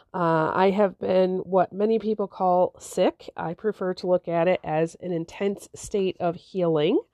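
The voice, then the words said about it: Sick-sounding voice. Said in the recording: “You can probably hear it in my voice.”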